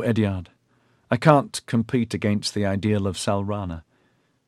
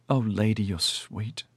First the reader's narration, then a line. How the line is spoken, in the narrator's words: she sighed